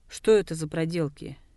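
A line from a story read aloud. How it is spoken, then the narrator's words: Angry question. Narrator (Russian): сердито спросил Дылгер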